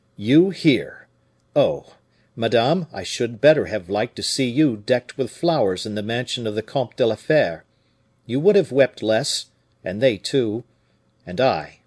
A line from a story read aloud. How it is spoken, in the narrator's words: replied, in a stern voice